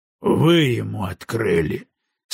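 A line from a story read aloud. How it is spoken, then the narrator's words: Bored voice, through teeth. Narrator (Russian): скучным голосом процедил Маккензи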